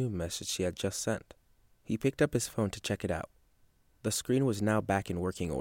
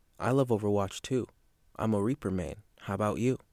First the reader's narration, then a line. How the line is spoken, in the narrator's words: it said